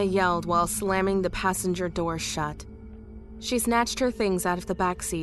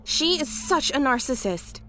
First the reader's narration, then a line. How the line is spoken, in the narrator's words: she cried